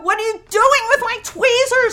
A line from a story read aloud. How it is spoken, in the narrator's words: I shouted